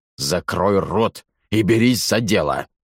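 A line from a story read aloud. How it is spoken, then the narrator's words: Growled. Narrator (Russian): прорычал Ваймак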